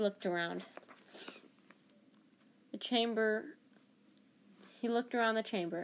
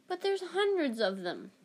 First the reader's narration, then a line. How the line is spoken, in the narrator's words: Ron exclaimed